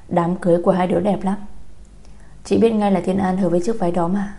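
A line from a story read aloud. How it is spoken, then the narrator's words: Smiling. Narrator (Vietnamese): Nhật Linh mỉm cười nói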